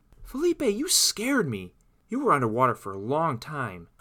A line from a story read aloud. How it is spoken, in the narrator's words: cried out Claire